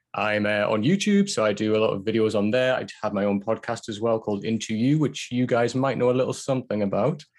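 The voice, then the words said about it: Northeast English accent. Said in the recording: “I'm based in the northeast of England, which explains this accent.”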